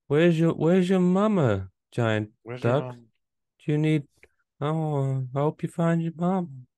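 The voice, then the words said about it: Imitates a person who is high. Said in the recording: “That was a terrible impression of a high person. ... it's actually a very good impression of a high person”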